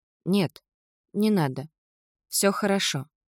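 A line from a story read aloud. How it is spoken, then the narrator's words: Empty, emotionless voice. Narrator (Russian): выговорила Кора все тем же пустым, безэмоциональным голосом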